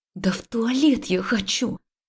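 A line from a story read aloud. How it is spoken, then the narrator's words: Quiet hiss. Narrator (Russian): прошипела я тихо ему в ответ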